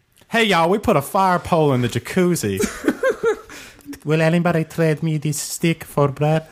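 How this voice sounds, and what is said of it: Put-on Southern woman's accent. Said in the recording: “a Southern accent for a woman”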